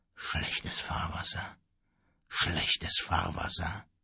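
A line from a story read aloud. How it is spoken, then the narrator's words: Sad murmur. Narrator (German): traurig murmelte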